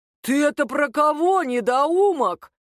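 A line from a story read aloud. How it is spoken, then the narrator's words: Furious growl. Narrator (Russian): прорычал яростно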